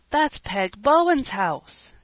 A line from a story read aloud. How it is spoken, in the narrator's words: exclaimed Peter, stopping short in dismay